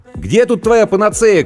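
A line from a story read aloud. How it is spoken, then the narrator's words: Shout. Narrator (Russian): крикнул я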